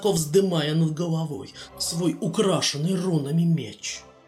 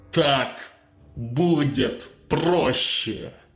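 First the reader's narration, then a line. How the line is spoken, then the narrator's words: Through clenched teeth. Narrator (Russian): процедил он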